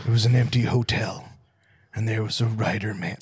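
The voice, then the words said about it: Breathy spooky storyteller voice. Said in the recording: “it was so breathy ... That's my spooky voice”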